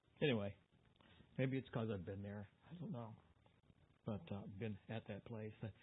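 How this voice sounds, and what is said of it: Choked-up, emotional voice. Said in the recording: “I always get choked up.”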